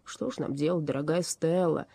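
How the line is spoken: Near groan. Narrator (Russian): чуть не простонал он

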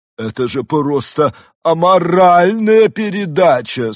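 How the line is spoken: Anguished exclamation. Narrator (Russian): с надрывом воскликнула Жозефина Витраж

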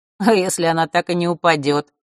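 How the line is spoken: Skeptical hum. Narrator (Russian): хмыкнул Маар

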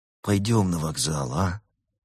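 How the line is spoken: Sighing. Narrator (Russian): Берта вздохнула

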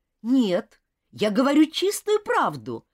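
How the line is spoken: Exclaiming. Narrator (Russian): воскликнул Роберт

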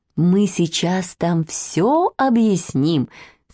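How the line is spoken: Plain. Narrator (Russian): сказала она

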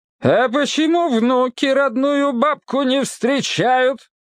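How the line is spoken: Loud booming voice. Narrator (Russian): спросила она зычным голосом

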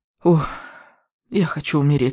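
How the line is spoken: Moan. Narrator (Russian): застонала она

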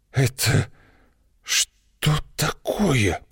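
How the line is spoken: Wheezing rasp. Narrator (Russian): прохрипела Злата

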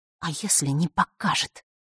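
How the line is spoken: Angry whisper. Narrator (Russian): разозленным шепотом произнесла она

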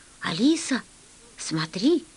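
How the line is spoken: Quiet. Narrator (Russian): Я сказал тихо

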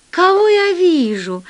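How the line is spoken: Surprised exclamation. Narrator (Russian): воскликнула Элла, увидев второго капитана

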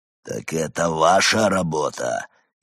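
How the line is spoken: Furious growl. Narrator (Russian): яростно прорычал он

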